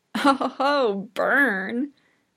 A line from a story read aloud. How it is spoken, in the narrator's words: Ashido says with a laugh